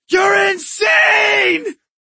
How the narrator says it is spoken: Ozzy screamed

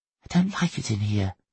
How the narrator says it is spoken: Jimmy whispered

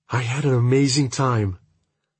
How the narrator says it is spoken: she whispers

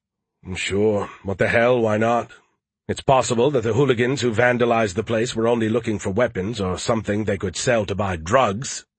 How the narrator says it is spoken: he said bitterly

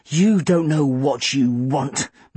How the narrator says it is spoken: Mum dismissed with a snort

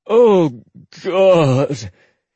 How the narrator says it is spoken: He groaned, his face pressed into the pallet of furs

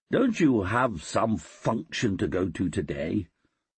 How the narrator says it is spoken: I said irritably

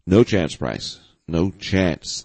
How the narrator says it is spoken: the sniper replied

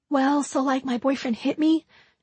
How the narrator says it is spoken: she said softly

